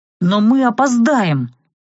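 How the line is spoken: Impatient exclamation. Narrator (Russian): не выдержав, воскликнул эльф

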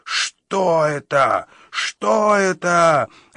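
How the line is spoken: Frenzied shout. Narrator (Russian): обезумев, выкрикнул один из когтестражей

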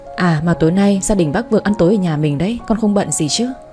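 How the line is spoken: Smiling. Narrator (Vietnamese): Tôi mỉm cười

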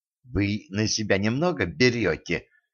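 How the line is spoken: Hissing. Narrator (Russian): зашипела Женька

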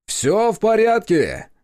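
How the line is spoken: Loud announcement. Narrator (Russian): объявил он достаточно громко, чтобы все слышали

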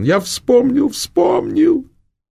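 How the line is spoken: Sobbing. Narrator (Russian): зарыдал

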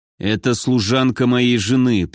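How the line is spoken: Through gritted teeth. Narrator (Russian): процедил Генрих

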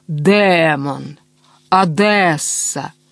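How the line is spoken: Mocking drawl, imitating lady. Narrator (Russian): насмешливо тянул он, изображая одесскую барышню

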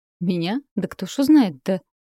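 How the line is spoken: Laughing. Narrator (Russian): Маринка рассмеялась

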